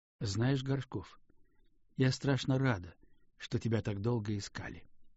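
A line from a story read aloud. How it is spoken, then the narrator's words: Calm. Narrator (Russian): сказала она спокойно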